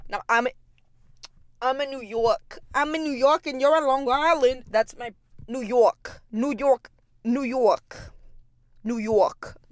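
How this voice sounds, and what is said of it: Attempted New York accent. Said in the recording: “not me being, like, a New York girl ... Listen, I'm bad at accents.”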